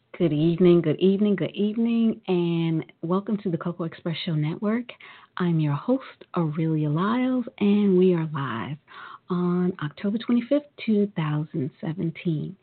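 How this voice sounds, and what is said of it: Slightly hoarse voice. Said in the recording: “My voice is a little hoarse, so I am not going to be yelling and screaming as much as I would love to”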